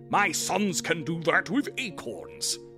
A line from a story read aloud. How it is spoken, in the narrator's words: someone bellowed